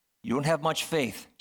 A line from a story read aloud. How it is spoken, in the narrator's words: Jesus said